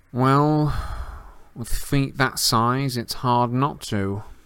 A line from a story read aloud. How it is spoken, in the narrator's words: said a drawling voice from behind them